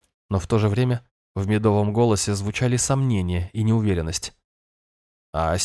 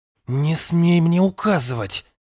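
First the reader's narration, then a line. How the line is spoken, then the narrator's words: Hiss. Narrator (Russian): прошипела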